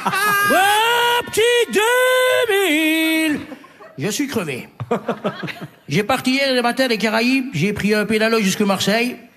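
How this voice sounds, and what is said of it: Put-on Martinican French accent. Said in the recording (French): “Il a un accent martiniquais.”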